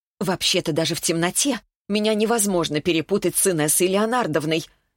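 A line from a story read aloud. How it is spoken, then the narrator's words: Sharp reply. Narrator (Russian): довольно резко ответила Северцева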